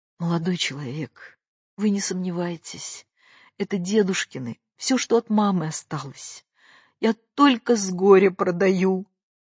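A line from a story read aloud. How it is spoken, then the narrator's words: Inspired and sad. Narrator (Russian): вдохновенно и печально говорила Катя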